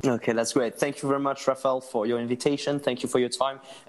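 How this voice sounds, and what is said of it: French-accented English. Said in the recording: “sorry for my French English ... my accent”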